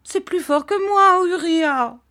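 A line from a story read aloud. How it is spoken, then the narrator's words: Mother shouting. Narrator (French): cria sa mère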